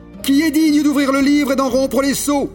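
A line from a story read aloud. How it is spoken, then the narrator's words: Mighty angel's loud cry. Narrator (French): un ange puissant qui criait d'une voix forte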